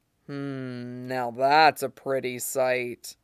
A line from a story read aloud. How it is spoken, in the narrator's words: Ghost purred